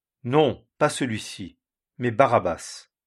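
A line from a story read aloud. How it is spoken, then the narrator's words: Crowd shouting again. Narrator (French): Ils s'écrièrent donc tous encore, disant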